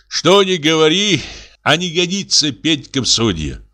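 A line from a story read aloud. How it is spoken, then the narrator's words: Sighing. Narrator (Russian): вздохнул он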